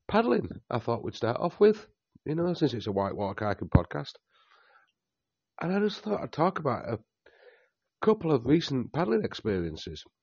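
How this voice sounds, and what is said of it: Hoarse, chesty voice. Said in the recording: “I've got a bit of a chest infection, as you could probably tell in my voice.”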